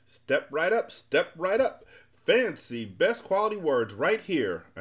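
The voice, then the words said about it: Loud booming announcer voice. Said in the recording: “announced one man in a booming voice.”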